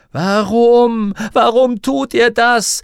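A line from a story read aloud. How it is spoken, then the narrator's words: Desperate scream. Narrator (German): schrie Lyra verzweifelt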